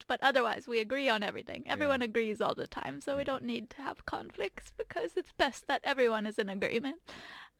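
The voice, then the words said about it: Put-on Swedish accent. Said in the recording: “Swedish accent tone”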